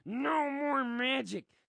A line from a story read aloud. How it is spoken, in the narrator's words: his throat rasps without its usual gravy lube